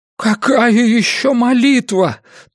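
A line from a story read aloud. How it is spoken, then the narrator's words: Moaning. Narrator (Russian): Том просто стонал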